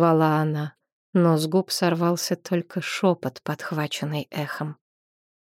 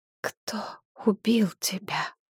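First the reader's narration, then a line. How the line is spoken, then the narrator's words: Barely audible whisper. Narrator (Russian): На этот раз шепот был едва слышным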